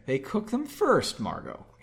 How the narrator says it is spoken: Henry said calmly

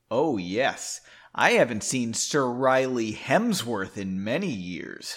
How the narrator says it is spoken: she sneered

